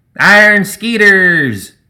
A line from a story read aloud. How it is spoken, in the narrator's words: the gremlin had hollered